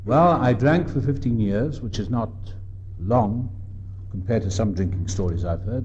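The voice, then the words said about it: Welsh accent. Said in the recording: “As you can tell by my accent, I'm from across the water. I'm Welsh”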